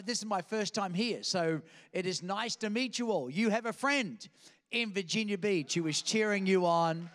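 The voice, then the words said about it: Australian accent. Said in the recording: “accent now? Just want you to know this is the actual accent ... some foreign place called Australia, where I picked up this funny accent”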